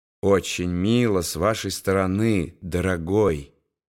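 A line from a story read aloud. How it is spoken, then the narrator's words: Tender, smiling. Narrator (Russian): нежно улыбаясь, сказала Гретхен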